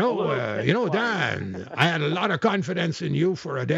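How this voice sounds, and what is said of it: Usual voice. Nothing is said of it.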